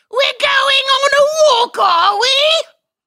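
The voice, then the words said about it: Bad whiny British accent. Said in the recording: “I suck at a British accent. Like, I can only do, like, the whiny guy from freaking Harry Potter or Monty Python.”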